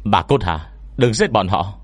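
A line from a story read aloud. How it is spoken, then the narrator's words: Frightened shout. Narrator (Vietnamese): Trong lúc sợ hãi, tôi bất an hét lên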